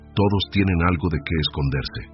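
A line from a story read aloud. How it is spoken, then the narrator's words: Plain. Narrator (Spanish): dijo ella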